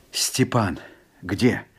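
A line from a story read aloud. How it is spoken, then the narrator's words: Quiet question. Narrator (Russian): тихо спросил Жапак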